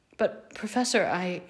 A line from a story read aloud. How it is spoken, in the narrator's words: Harry stammered, unsure of how to begin